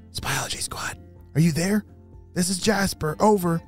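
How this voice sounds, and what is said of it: Whispering. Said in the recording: “you're whispering.”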